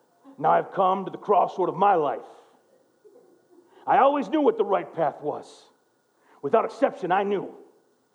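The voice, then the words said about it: Imitates another person's voice. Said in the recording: “in my best Al Pacino voice”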